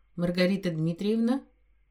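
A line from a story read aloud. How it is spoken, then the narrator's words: Cold smiling voice. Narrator (Russian): Мужчина холодно мне улыбнулся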